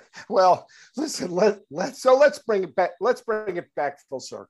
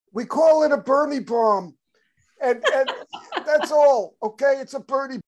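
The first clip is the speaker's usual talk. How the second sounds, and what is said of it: Bernie Sanders impression. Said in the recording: “does a pretty darn good Bernie impression”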